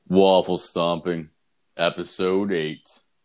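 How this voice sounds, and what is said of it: Deliberately lowered, deep announcer voice. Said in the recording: “I lower my voice... Lower my fucking voice for it... It sounds so professional.”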